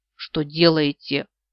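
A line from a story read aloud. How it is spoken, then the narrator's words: Indignant question. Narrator (Russian): возмущенно спрашивает он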